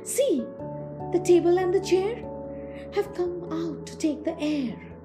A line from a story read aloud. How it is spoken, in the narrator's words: everybody cried as they hastened to the side